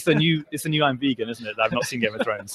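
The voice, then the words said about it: Northern English accent. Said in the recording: “you have that accent... I'm from the north of England. I'm from a place called York... I have my accent... the British accent”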